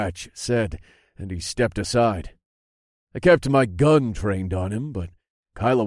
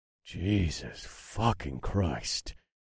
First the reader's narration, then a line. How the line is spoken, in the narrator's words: I muttered